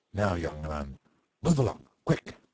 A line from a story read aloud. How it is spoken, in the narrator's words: growled the sentinel